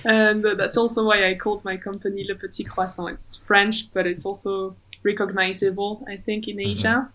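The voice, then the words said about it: French accent. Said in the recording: “I'm French, as you can hear from my accent.”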